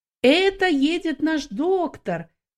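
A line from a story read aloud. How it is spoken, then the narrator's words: Shouted. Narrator (Russian): некоторые из них кричали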